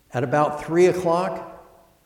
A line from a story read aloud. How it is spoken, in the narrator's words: he cried with a loud voice